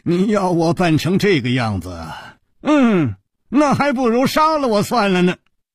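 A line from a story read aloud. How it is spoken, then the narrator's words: Long sigh. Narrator (Chinese): 楚留香长长地叹息了一声，说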